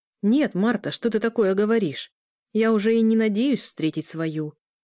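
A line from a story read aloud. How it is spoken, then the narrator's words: Casual, indifferent tone. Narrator (Russian): произнес будничным тоном вампир, будто его и не волновало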